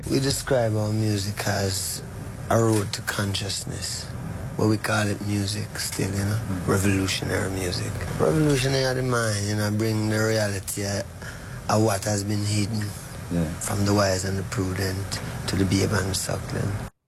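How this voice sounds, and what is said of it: Hard-to-place accent. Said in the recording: “I'm very finding it very difficult to pick up the accent”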